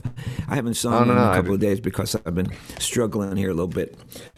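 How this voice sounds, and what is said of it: Rough, hoarse voice. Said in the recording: “Oh, my voice is really rough.”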